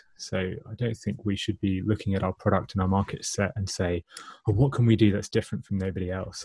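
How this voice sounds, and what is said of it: British accent. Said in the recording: “I'm the first British accent ... It sounds very nice when you say it”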